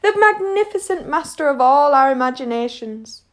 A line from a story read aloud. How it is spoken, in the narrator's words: Lace cried, clutching his hair